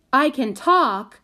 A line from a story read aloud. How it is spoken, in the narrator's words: shouted again